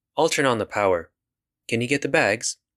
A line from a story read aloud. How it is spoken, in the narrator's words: Her voice seemed entirely under control, despite the circumstances